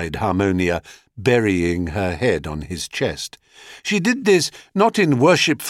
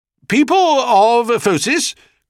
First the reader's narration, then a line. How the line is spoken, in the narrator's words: cried the king